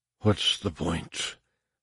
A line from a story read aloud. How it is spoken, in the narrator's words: Harar whispered